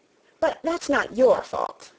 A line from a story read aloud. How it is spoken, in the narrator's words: the rose added kindly